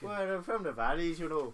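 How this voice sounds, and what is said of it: Put-on Welsh accent. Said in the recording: “Wales. Welsh.”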